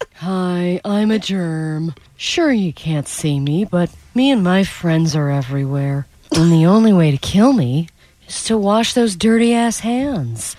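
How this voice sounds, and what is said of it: Cartoonish character voice of a germ. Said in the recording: “doing the voice of a germ ... I made a couple of character choices there.”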